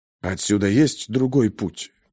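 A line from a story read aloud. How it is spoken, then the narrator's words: Whispered question. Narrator (Russian): шепотом спросил Пейнтер ученого-физика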